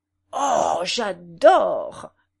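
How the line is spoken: Exclaiming. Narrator (French): s'exclama Tanguy

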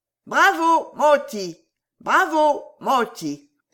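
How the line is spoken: Animal shouting. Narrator (French): criait l'animal

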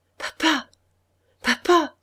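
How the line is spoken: More breathless voice. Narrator (French): d'une voix plus haletante

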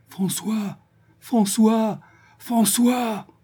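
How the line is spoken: Heartrending calling. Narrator (French): Elle appelait d'une voix déchirante

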